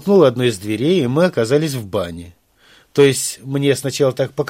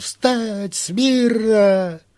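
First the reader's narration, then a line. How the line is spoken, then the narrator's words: Flustered, then wild bellow. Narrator (Russian): подполковник сначала как-то растерялся, а потом заорал не своим голосом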